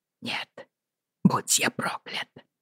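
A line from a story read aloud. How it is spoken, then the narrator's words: Hissed. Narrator (Russian): прошипел Роджер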